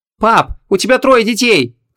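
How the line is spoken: Shouted. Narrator (Russian): крикнула Ванесса

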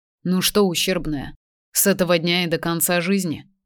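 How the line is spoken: Gloomy question. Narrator (Russian): спросил мрачно

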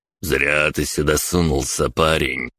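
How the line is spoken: Menacing mutter. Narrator (Russian): процедил самый высокий из мужчин

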